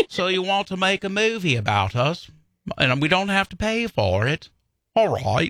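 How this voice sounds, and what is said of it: American doing a British accent. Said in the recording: “British people love it when Americans try to do their accent”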